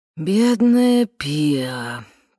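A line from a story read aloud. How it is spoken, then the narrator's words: Sighing. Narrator (Russian): предсказуемо вздохнул Уэс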